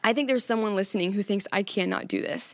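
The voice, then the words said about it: Squeaky, teary emotional voice. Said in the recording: “I'm probably going to cry ... let me have my squeaky voice pass”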